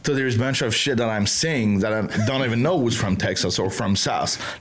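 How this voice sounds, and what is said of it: French accent with Texan touches. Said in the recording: “you hear my French accent ... in a middle range between the French accent and the Texas”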